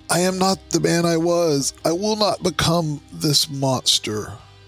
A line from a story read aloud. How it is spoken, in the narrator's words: he cries out